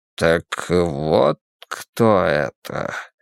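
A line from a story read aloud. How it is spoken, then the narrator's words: Slow speech. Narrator (Russian): медленно произнес я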